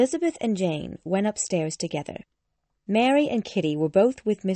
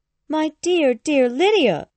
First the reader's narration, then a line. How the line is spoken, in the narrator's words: she cried